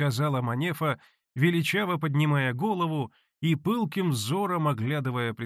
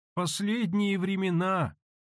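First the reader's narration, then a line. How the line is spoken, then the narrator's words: Sad sigh. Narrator (Russian): пригорюнясь, вздохнула Таифа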